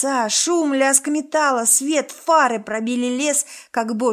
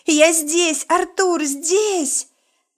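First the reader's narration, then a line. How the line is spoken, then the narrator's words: Loud frantic shout. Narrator (Russian): Я закричала громко, судорожно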